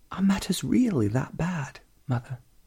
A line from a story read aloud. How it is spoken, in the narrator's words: Moira looked at her pleadingly